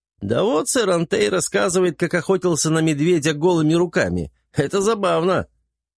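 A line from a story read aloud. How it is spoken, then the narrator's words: Laughing reply. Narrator (Russian): Касмин продолжая смеяться, неожиданно ответил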